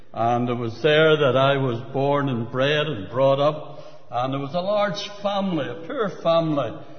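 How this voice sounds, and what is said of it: Belfast Northern Irish accent. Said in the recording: “I was born and bred in the city of Belfast. You would know that from my very polished accent.”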